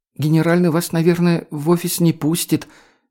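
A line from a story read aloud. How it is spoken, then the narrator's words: Uncertain guess. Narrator (Russian): неуверенно предположила Лея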